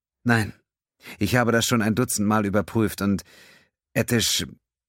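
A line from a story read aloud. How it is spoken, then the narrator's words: Sad. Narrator (German): Desai traurig meinte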